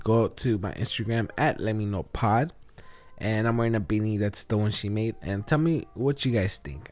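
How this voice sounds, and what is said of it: Raspy, slightly sick voice. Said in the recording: “As you could probably tell by my voice, I'm a little sick ... Just my voice sounds a little raspy”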